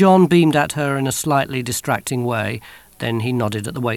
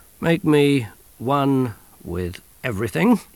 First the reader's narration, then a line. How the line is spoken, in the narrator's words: he said slowly and carefully, as if quoting something he'd heard a long time ago